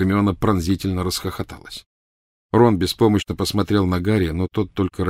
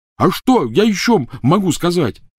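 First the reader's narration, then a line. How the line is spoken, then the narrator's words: Yelling. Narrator (Russian): заорал Рон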